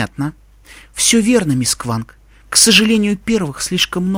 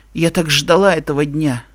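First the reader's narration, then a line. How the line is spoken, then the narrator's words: Grim. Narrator (Russian): мрачно сообщила Найтмер Мун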